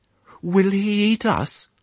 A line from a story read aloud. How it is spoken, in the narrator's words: said another rather nervously